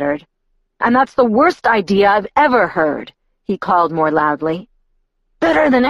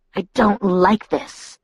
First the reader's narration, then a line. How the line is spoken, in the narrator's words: Edward hissed